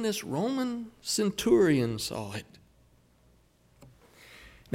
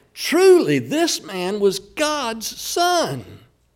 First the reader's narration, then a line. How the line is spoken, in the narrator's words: the Roman centurion, he cried out and confessed when Jesus died